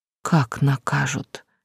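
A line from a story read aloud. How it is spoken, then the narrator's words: Quiet, intensely anxious question. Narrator (Russian): тихо спросила, чувствуя невыносимое волнение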